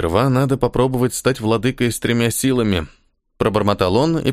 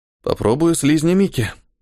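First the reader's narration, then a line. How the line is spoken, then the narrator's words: Weary exhale after failure. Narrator (Russian): выдохнул он устало после очередного провала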